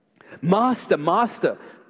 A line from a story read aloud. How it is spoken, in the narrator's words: the apostles cried